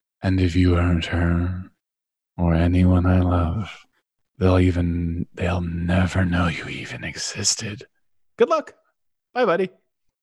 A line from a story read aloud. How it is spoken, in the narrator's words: slowly whispers with his litchy teeth